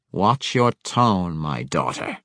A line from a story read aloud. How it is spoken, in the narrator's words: Malice growled as an angry reminder